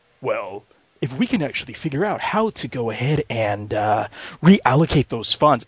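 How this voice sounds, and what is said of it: Much deeper dubbed movie voice. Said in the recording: “Jackie Chan goes like ... The voice is like 50 octaves deeper”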